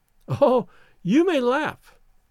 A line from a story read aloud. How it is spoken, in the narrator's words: cried the girl